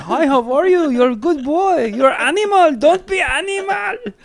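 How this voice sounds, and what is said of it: Imitated Middle Eastern dad accent. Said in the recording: “Middle Eastern clean jokes ... my dad was like your dad, but he had an accent.”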